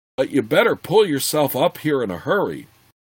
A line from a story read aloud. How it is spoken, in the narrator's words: replied through clenched teeth